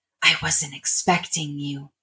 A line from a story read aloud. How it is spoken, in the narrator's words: Darlene whispered, despite being alone